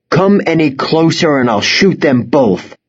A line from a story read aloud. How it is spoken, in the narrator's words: Golan shouted